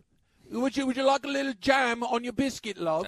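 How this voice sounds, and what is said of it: Put-on English Cockney accent. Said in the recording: “my English accent ... It's a Cockney accent.”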